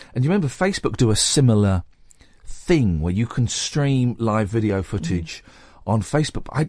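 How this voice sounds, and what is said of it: Slightly croaky, fading voice. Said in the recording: “My voice is going, uh-oh. ... my voice is going a little bit croaky”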